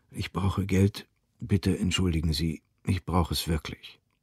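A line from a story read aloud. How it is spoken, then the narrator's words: Dry-mouthed, very quiet. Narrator (German): Sein Mund war trocken, er sagte ganz leise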